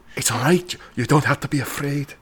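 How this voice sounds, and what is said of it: Whispered British-accented line. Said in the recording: “a different sort of British accent... entirely whispered”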